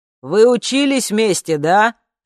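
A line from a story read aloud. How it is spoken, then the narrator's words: Shouted. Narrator (Russian): прокричал он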